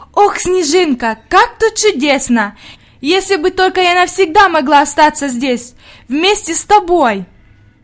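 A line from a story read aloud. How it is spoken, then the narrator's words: Exclamation. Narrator (Russian): воскликнула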